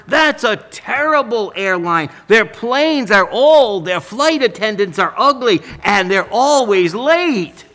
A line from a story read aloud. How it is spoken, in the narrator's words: exclaimed the barber